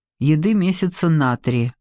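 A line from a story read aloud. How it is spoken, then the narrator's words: Gloomy. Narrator (Russian): мрачно сказал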